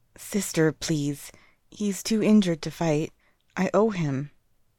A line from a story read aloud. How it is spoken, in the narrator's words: a boy softly replies, obviously nervous of their angry sibling